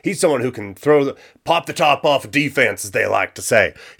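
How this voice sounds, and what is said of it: Sudden put-on Southern accent. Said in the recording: “I don't know why that southern accent came out there”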